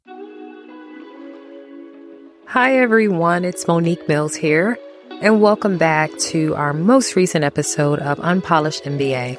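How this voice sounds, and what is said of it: Raspy voice. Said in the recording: “you can probably hear right now a little bit in my voice is I suffer from allergies really bad ... you'll hear some of these episodes with my raspiness”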